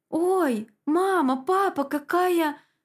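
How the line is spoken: Excited cry. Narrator (Russian): вскрикнул Игнат

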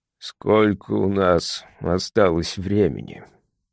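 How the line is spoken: Barely audible question. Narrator (Russian): Вопрос был задан так тихо, что я едва расслышал его

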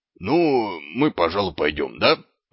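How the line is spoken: Hesitant mumble. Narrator (Russian): промямлил он

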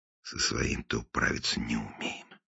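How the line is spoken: Muttered in Russian. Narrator (Russian): пробормотал по-русски

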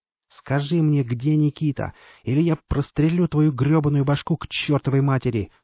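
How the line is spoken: Young woman shouting into shriek. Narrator (Russian): закричала девушка, переходя на визг

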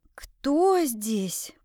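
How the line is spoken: Hoarse wheeze. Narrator (Russian): просипела

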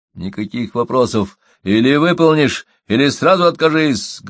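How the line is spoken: Barked. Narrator (Russian): гаркнул Крамер

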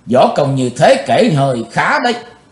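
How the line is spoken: Cold, detached. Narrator (Vietnamese): Giọng của chàng lãnh đạm thốt lên

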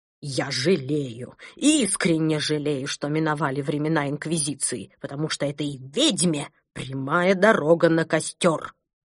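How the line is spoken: Spiteful hiss, rising. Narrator (Russian): злобно прошипел доктор Пилюлькин, повышая голос

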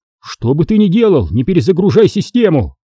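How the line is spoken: Shouted. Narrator (Russian): крикнул он Миру

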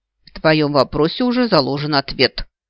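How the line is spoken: Agitated bark, heart pounding. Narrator (Russian): рявкнула, все еще не в силах унять бешено колотящееся сердце

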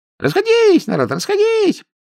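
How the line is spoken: Thin affectionate squeal. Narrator (Russian): подвизгивал он тонким своим ласковым своим голоском

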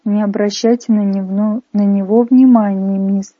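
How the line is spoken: Cooing. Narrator (Russian): проворковало правое лицо

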